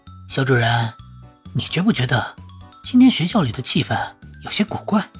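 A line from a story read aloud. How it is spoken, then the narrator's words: Hushed, low voice. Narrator (Chinese): 压低声音对潘夏说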